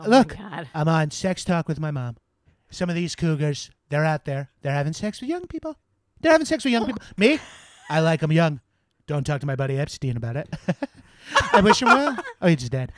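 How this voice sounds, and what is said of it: Imitates another person's voice, nasal. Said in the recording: “can do a good Donald Trump impression, is because it's just the same as my dad, but with higher pitch moments ... he had a little nasal thing”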